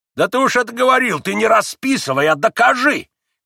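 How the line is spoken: Shouting. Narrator (Russian): кричал Федор Павлович

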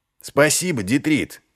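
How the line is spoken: Shout after someone. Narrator (Russian): крикнул вслед Ваймс

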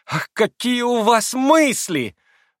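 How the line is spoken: Delighted shriek. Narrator (Russian): Взвизгнула в восторге Лиза

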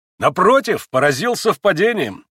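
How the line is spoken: Cheerful ardent exclamation. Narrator (Russian): весело и с жаром вскричал Иван

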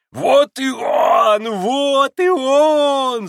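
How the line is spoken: Overjoyed yell. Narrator (Russian): завопил Федор Павлович, вдруг страшно обрадовавшись Алеше

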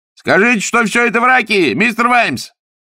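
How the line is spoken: Bold shout. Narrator (Russian): кто-то, набравшись смелости, крикнул

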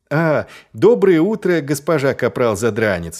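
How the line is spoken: Cheerful exclamation. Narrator (Russian): весело воскликнул Маркоу

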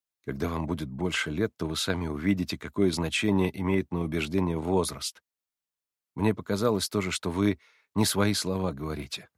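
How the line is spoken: Modest, calm. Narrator (Russian): скромно и спокойно ответил Алеша

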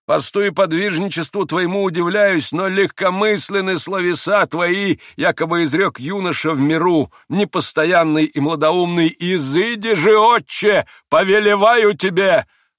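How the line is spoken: Thundering, priest. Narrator (Russian): прогремел в заключение отец Паисий

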